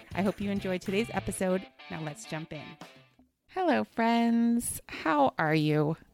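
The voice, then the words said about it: Slightly hoarse, fading voice. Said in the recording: “My voice is going a little bit”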